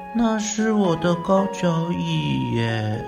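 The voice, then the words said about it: Soft quiet voice. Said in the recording (Chinese): “小声地说”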